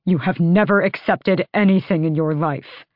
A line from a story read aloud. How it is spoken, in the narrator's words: Rowan snarled